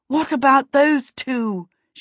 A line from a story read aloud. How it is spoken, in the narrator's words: she panted